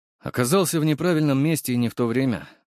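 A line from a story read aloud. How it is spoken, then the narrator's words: Snorting. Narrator (Russian): хмыкнул я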